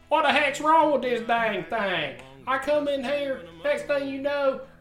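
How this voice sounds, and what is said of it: Put-on country accent. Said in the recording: “A country accent.”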